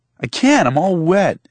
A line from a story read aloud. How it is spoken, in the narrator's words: Joel hollered